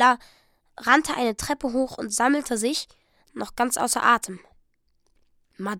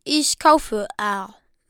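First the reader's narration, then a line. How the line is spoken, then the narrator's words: Plain. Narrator (German): sagte Madame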